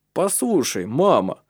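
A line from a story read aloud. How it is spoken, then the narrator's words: Exclaiming. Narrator (Russian): воскликнул Таральд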